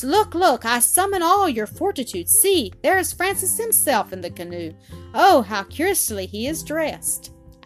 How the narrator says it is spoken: cried they at once

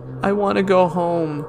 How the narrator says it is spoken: whined and complained

